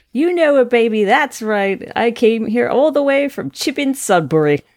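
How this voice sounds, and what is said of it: Put-on funny English accent voice. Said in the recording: “she's also doing a funny voice.”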